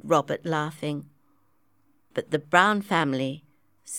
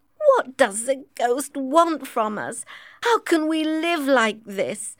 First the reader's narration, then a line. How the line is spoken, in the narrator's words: Emily cried